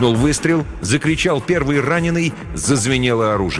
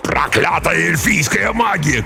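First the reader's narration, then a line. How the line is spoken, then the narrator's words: Shout. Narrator (Russian): крикнул Ак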